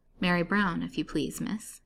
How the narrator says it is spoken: answered the woman in her kind, soothing tone

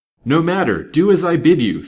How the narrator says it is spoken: thundered the impatient detective

